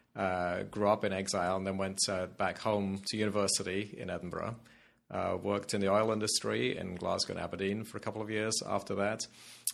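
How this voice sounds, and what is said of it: Non-American accent, likely Scottish. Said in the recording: “anybody listening can tell immediately by your accent that you're not from Philadelphia or even the States originally”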